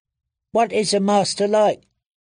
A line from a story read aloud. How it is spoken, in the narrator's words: Penny asked anxiously